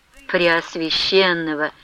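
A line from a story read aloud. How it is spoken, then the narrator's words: Barely audible. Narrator (Russian): чуть слышно промолвила Манефа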